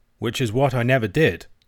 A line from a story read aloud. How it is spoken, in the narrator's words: said Alan